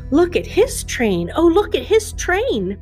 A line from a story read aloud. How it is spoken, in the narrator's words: a duckling, who stood nearby, exclaimed